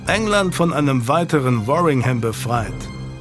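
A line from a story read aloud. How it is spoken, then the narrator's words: Plain. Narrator (German): antwortete Scroop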